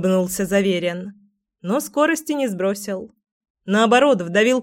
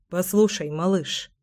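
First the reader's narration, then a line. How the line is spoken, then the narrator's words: Muttered. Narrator (Russian): пробормотал Семен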